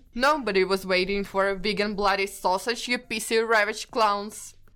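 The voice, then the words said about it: Piers Morgan impression. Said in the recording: “my best Piers Morgan impression”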